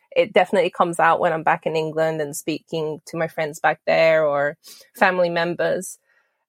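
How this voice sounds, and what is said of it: British accent with American tinge. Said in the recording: “I do have a British accent.”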